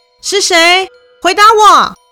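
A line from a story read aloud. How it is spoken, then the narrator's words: Loud shout. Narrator (Chinese): 明明很大声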